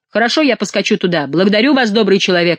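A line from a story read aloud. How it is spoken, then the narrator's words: Exclamation. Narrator (Russian): воскликнул Монсоро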